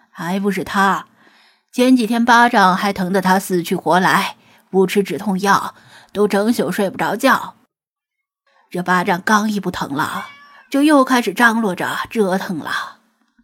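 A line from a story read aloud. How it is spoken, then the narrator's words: Sighing. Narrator (Chinese): 吴电工未曾说话，先叹气，说道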